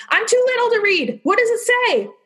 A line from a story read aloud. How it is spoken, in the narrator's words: Leaf anxiously exclaimed